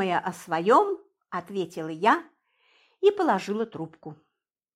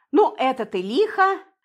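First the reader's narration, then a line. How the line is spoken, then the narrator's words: Laughing. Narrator (Russian): засмеялся Андрей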